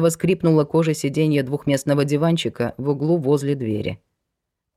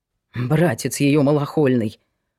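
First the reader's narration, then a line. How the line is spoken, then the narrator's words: Snorting. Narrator (Russian): фыркнул Глеб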